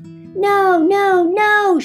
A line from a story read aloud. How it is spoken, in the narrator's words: shouted Groundo